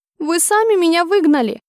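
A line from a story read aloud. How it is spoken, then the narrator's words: Thin squeak. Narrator (Russian): Хотела произнести это таким же тоном, как у него, но удалось лишь тоненько пропищать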